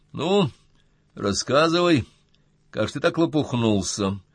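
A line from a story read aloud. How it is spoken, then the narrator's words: Calm demand. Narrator (Russian): спокойно потребовал Артем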